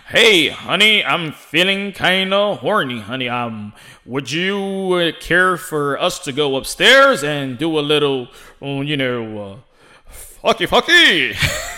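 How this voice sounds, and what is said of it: Exaggerated boxing announcer voice. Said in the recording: “always in an announcing voice. ... Why you sound like that?”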